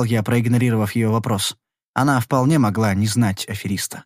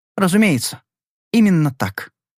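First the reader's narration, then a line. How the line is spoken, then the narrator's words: Perfectly calm. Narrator (Russian): сказала она совершенно спокойно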